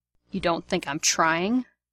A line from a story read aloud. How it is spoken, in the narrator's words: Sirius says, in a dangerous tone of voice